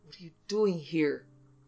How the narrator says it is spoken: snarled, like a bigger and fiercer cat than he

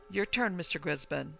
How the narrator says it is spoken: young exclaiming

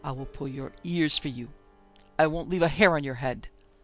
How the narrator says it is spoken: she exclaimed

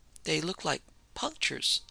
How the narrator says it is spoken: the servant murmured

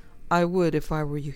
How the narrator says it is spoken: said

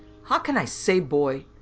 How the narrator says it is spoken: George said irritably

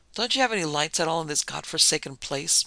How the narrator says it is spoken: Morgan asked irritably

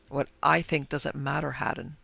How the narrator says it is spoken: he replied gravely

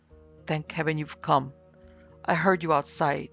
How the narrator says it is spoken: said in a weak voice

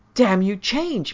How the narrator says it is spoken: Miss Sidley screamed

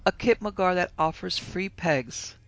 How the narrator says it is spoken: exclaimed with a shout of laughter

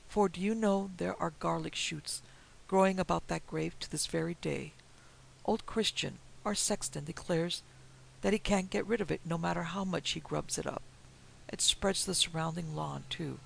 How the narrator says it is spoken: he added sadly

